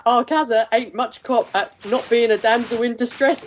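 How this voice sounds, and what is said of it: Put-on Mockney accent. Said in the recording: “if you say it in a Mockney accent, it works ... My Mockney skills are yours whenever you need them.”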